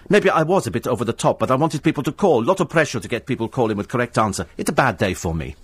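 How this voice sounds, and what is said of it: Put-on foreign accent quoting someone. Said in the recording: “Might not have been in that sort of accent, but it was quite close ... Okay, that's how they speak. Okay, if she was doing it in English, that's how she'd be.”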